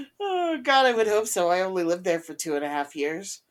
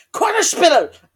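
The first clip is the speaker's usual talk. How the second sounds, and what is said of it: Good put-on German accent. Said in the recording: “you can do a good German accent”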